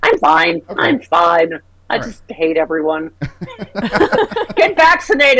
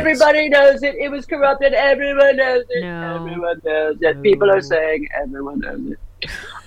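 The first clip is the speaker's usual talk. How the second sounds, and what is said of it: Imitates another person's voice. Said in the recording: “How is my Trump impression with COVID? ... It's not that bad.”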